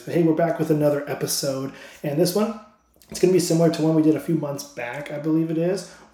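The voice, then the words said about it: Slightly strained, losing voice. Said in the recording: “my voice might sound a little weird. I feel like I'm losing my voice a little bit, so it might sound different than it usually does”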